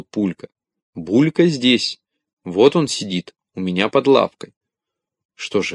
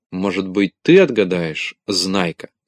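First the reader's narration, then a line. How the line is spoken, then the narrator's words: Plain. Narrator (Russian): спросил Авоська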